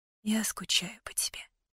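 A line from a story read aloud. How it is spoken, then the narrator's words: Whisper, voice breaking. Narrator (Russian): прошептала я, и голос надломился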